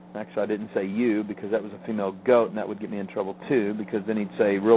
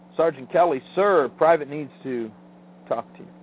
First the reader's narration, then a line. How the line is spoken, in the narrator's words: I had to yell